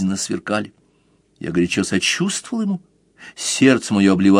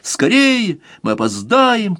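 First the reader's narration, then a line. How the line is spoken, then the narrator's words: Shouted while running downstairs. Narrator (Russian): кричал он, сбегая по лестнице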